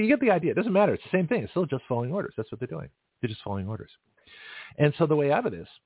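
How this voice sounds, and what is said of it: Usual voice. Nothing is said of it.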